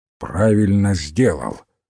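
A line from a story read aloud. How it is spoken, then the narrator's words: Grumbled. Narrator (Russian): проворчал мистер Гикари Крейг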